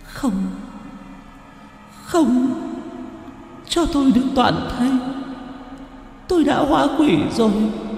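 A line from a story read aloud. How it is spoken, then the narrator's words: Sobbing. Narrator (Vietnamese): Cô gái nghe vậy lại càng nức nở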